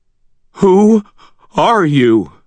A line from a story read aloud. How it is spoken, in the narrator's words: Harvey asked in a shaking, bewildered voice